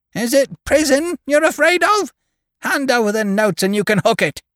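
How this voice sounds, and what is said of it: Shrill yelping voice. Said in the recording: “yelped in her shrill voice”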